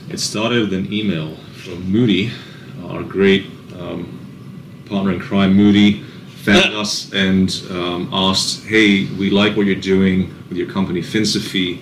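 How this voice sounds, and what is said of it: English accent. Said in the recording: “as you can tell from my accent, I have a background in England”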